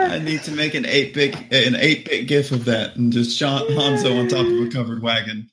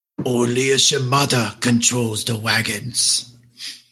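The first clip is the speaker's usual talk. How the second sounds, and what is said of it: Impression of a game character. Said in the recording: “This is my impersonation of Hanzo playing Oregon Trail.”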